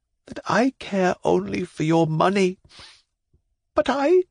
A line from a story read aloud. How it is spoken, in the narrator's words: said in a trembling voice